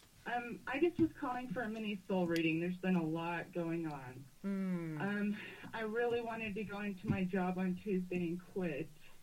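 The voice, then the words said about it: Emotional, shaky speaking voice. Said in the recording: “I'm getting a little emotional.”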